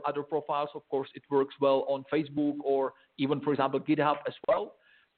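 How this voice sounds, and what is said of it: Speaks with an accent. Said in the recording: “this guy's got an accent.”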